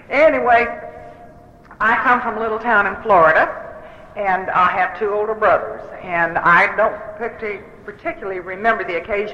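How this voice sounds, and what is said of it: Southern American accent. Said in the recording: “As you can probably tell, I don't speak English. I speak Southern.”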